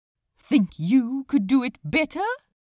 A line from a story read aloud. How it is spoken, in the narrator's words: Aziraphale snapped back